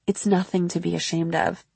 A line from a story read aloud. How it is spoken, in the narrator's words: He said, quite kindly